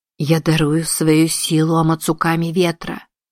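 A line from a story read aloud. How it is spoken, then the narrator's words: Soft voice muffled by mask. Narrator (Russian): произнесла Узуме, и ее мягкий голос глухо прозвучал под маской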